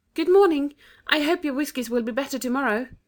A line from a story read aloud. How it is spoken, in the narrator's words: Anthea ... shout a timid